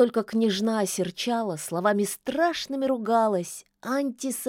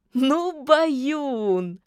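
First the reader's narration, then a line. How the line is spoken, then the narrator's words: Witch's loud laughter. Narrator (Russian): расхохоталась ведьма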